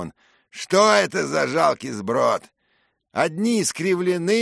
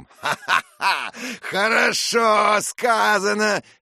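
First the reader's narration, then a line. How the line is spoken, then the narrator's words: Shouted. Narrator (Russian): крикнул он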